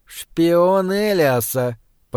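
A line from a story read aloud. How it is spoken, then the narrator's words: Hissed. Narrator (Russian): прошипел один из северных лордов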